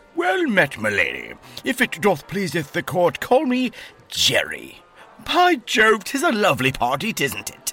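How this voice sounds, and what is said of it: Strange mock old-English accent. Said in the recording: “a strange accent of his own.”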